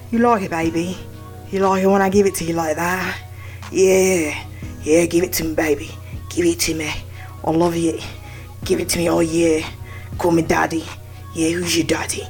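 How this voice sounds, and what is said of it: Put-on British accent, sultry voice. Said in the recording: “doing a British impression of porn ... Ugh, just awful.”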